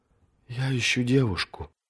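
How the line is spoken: Whisper. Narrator (Russian): шепотом сообщила Бриенна между двумя глотками

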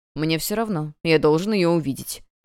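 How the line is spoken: Cold reply. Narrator (Russian): холодно отвечал Томас Биен

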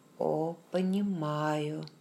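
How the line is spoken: Soft, almost mocking. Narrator (Russian): Голос Джейми звучал мягко, почти насмешливо

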